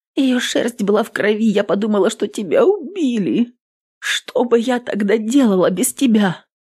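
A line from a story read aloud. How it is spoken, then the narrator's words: Loud sobbing. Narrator (Russian): Она шумно всхлипнула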